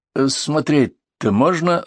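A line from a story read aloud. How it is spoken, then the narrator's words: Timid question. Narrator (Russian): робко спросил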